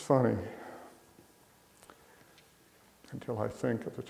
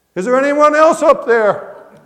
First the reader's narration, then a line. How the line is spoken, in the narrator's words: After a long pause, yelled again